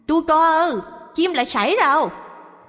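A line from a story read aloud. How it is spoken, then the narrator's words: Panicked shriek, thick regional accent. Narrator (Vietnamese): với cái giọng đặc sệt miền Trung, lần này bà bán chim lại hét thất thanh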